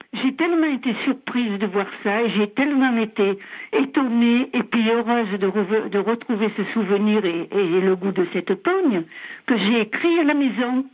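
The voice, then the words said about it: Distinct accent. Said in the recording (French): “vous avez un très bel accent”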